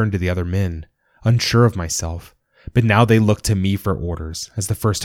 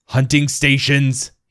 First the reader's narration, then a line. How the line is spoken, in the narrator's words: roared, spittle flying from his lips